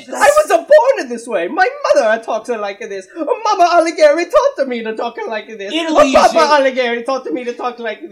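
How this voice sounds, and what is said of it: Exaggerated, bad fake Italian accent. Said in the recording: “stupid fucking accents ... Stupid, preposterous accent ... 10 different Italian accents ... you fucked up every single one of them”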